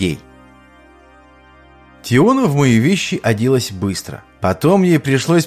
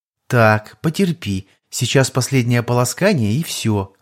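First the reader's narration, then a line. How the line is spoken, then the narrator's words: Gentle soothing. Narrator (Russian): ласково успокаивала разнервничавшегося меня Тиона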